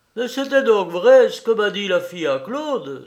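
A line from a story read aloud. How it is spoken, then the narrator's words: Woman exclaiming. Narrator (French): s'écria-t-elle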